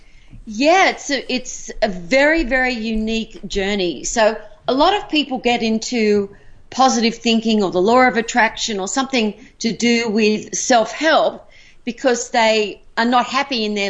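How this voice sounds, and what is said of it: Australian accent. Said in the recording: “I love your Australian accent. It's absolutely, it sounds magical. ... it's just very beautiful the way you speak”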